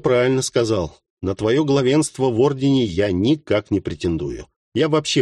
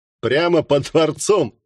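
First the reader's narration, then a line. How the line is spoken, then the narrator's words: Laughing. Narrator (Russian): рассмеялся Менахим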